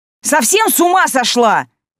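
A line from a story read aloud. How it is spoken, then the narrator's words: Sharp scolding. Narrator (Russian): прикрикнула на нее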